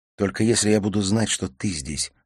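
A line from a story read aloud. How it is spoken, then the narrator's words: Plain. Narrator (Russian): ответил Олег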